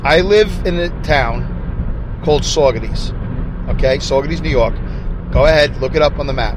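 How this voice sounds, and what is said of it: Brooklyn accent. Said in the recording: “my Brooklyn accent”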